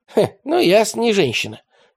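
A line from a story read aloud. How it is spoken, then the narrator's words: Snorting. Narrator (Russian): хмыкнул Радищев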